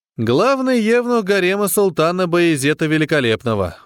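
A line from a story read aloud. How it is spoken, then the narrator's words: Glum reply. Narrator (Russian): уныло ответил Смит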